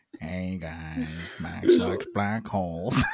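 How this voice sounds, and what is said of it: Impression of Family Guy character. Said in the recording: “did an impression of the guy from Family Guy”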